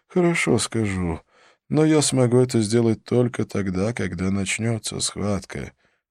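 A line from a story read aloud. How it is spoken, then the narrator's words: Sad. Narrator (Russian): печально ответил Халет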